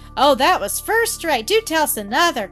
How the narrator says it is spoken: cried Rhoda Jane, holding her sides

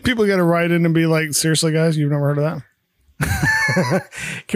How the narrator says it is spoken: Carol laughs

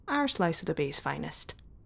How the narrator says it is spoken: added, smiling softly

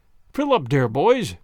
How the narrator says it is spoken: shouted the fiddler impatiently

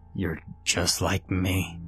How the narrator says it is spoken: my father somehow say in a gurgling, failing voice

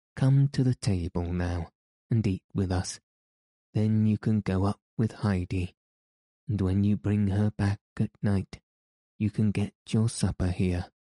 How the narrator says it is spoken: More kindly, the old man then said

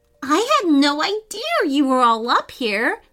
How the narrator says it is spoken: Lila exclaimed

